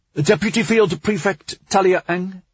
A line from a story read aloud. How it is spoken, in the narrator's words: she called out